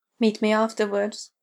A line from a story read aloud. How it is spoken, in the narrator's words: Will asks softly